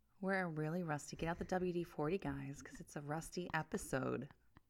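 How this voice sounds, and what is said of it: Sultry, breathy phone-sex operator voice. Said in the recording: “You sound like a sex phone operator talking about WD-40.”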